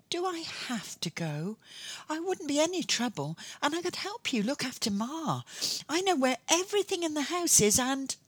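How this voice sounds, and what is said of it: Pleading, wheedling voice. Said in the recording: “put on my most pleading voice ... wheedling”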